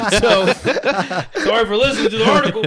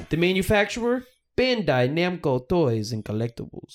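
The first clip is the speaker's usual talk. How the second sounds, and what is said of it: Put-on accent. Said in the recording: “Why did you do an accent? ... It says doing an accent.”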